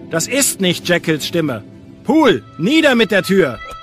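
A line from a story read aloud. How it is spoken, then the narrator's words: Urgent shout. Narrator (German): rief Utterson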